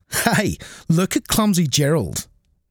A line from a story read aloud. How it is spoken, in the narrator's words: the animals all laughed